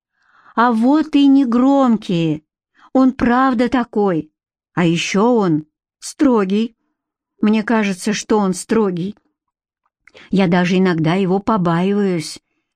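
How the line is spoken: Timid sharing. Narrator (Russian): поделилась Катя робко

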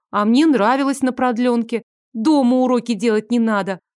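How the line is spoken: Joyful reply. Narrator (Russian): Радостно отозвалась Соня

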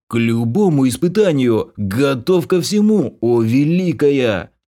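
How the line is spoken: Gurgling laughter, bald elf. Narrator (Russian): Забулькав, как закипевший чайник, лысый эльф с хохотом продолжил

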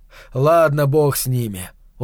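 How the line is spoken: Tired snapping. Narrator (Russian): устало огрызнулся он на самого себя

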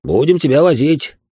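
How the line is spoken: Smirking snort. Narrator (Russian): хмыкнул Сергей Ильич

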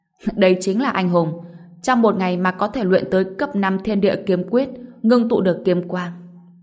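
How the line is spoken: Laughing loudly, very proud. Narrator (Vietnamese): tông chủ hà hà cười lớn, vô cùng tự hào nói

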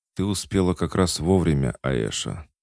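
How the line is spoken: Weak, tired voice. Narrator (Russian): сказал Лео слабым, усталым голосом

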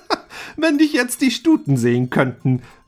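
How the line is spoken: Laughing. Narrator (German): lachte Rudolf

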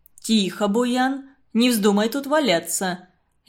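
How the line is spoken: Deep bass voice. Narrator (Russian): Низким басом говорил человек

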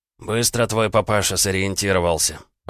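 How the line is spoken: Muttered. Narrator (Russian): пробормотал Ожогин

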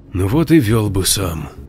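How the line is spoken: Quiet sigh. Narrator (Russian): негромко вздохнул Максим

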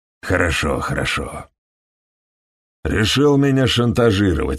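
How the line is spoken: Plain. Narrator (Russian): сказал он

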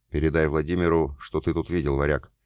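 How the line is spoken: Quick. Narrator (Russian): быстро сказал Роман

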